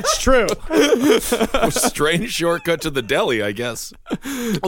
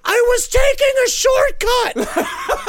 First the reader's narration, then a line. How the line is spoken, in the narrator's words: screamed